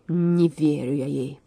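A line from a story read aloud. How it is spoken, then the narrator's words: Growling. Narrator (Russian): прорычал Лев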